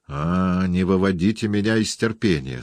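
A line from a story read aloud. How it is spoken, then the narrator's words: Plain. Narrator (Russian): сказал он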